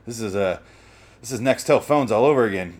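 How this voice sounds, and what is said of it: Voice nearly gone, hoarse. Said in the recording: “my voice is gone now for sure. Oh, it is gone ... what did I do with my voice?”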